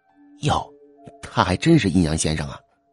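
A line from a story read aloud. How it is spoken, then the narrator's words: Quiet muttering. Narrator (Chinese): 小声嘀咕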